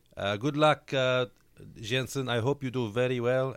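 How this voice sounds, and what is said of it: Put-on Spanish accent. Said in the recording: “in his Spanish accent that I shall now attempt to do”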